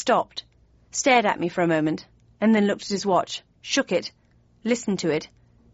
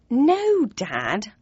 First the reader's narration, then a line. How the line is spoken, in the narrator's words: said in an exasperated tone